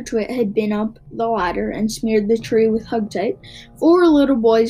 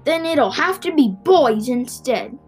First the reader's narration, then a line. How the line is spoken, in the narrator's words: he shouted